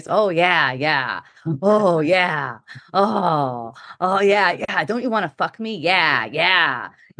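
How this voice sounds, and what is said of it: Sexual, horny character voice. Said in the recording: “this fucking sexual horny voice”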